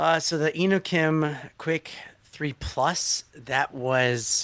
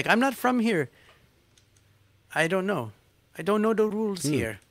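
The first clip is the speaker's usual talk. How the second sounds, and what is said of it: Put-on mixed accent. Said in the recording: “I don't know what expert accent that is. It's every accent”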